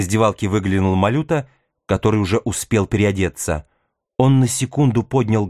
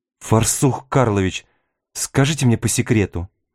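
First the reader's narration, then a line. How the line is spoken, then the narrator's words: Quiet question. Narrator (Russian): Татарский тихо спросил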